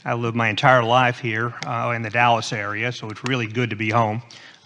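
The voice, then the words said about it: Texan accent. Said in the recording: “you can probably tell by my accent that I'm actually a Texan”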